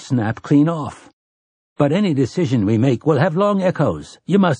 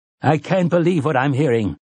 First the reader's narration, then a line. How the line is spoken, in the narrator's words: Tien Jaffords cried indignantly